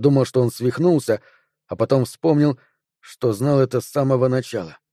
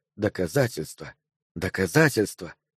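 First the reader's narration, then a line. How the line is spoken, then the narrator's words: Muttered. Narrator (Russian): Элджин бормотал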